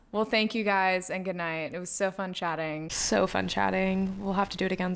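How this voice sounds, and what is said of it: Fake British accent. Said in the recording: “Why do I keep doing this British accent? ... I have the worst accents in the world.”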